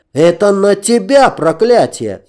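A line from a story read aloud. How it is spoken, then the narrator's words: Shouting even louder. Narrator (Russian): еще громче меня закричал Пир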